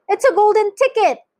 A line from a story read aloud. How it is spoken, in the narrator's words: screamed the shopkeeper